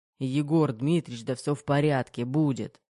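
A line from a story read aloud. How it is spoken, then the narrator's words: Grumbled. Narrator (Russian): буркнул Терехов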